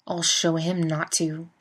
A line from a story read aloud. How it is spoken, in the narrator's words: Sam growls